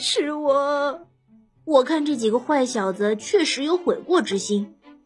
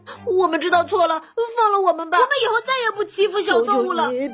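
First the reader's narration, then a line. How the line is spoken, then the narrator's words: Terrified boys pleading. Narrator (Chinese): 坏小子们…吓得纷纷求饶，哀求道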